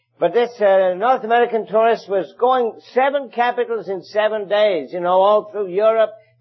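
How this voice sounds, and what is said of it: English accent. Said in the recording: “my native land of England ... you can tell from my accent that I originated from the, what sometimes is called here, the old country”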